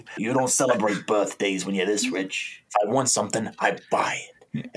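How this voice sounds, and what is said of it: Villain character voice. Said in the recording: “I do this voice every time we have a bad guy”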